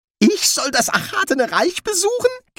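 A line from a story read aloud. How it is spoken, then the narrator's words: Squeaking. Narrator (German): quiekte der Dekan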